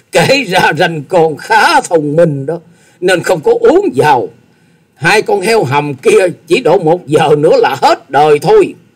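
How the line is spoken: Loud laughter. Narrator (Vietnamese): Tư Đồ Hạnh cười to

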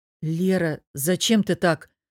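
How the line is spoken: Hoarse startled reproach. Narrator (Russian): вздрогнув, упрекнул Богдан заметно охрипшим голосом

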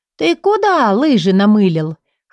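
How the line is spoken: Chuckling. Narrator (Russian): хохотнула я

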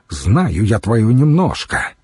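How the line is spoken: Angry young woman. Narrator (Russian): сердито сказала боярышня

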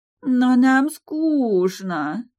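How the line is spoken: Drawn-out whine. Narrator (Russian): протянула вторая зеленокожая красотка

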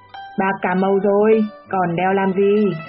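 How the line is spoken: Mocking shout. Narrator (Vietnamese): cười mỉa, gào lên

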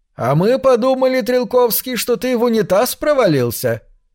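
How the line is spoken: Loud teacher, for all to hear. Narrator (Russian): учитель посмотрел на него и сказал громко так, чтобы всем было слышно

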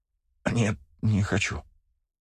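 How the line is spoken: Frightened stammering. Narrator (Russian): заикаясь, признал паренек, на лице которого не осталось и кровинки

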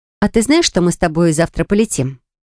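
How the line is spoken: Plain question. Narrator (Russian): спросила я

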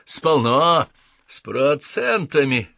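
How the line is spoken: Barked. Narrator (Russian): рявкнул мистер Крупп

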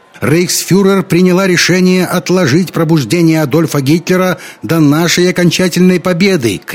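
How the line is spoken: Shouting over crowd noise. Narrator (Russian): кричала она, пытаясь перекрыть гул толпы

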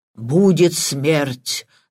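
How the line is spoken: Sepulchral voice. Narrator (Russian): загробным голосом произнес Патрик

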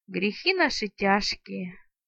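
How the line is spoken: Peasant's vague sigh. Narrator (Russian): неопределенно вздохнул мужик

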